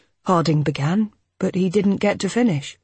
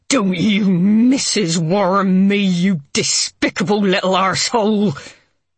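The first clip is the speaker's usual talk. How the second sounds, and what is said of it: Snarling Cornish accent. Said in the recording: “She snarled, her Cornish accent somehow making the last word into a kind of foreign invective.”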